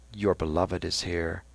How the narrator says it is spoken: Lynch whispered to Stephen

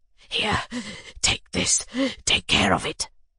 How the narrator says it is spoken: he whispered

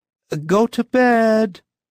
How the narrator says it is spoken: again shouted

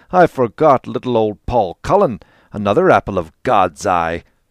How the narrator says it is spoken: he cried

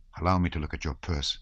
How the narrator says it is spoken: he said, in a low, almost inaudible voice

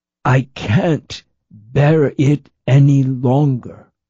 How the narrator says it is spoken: he drawled between groans, repeating even more slowly

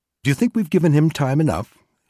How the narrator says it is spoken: McCumber asked Wilson cheerfully

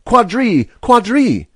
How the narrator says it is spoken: A red-faced young woman excitedly crying

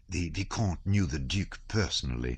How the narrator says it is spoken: whispered Anna Pavlovna

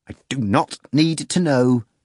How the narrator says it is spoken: Pilate responded in a choked, angry voice

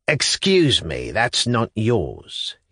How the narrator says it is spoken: he brought out, sternly and incisively, though he spoke rather softly

